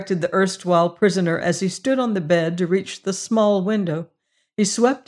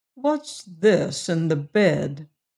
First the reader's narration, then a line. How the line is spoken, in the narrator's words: demanded the warden, who was slowly recovering